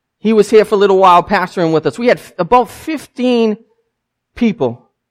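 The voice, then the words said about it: Southern US accent. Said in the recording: “they can tell I have an accent. ... we know when you're from the South.”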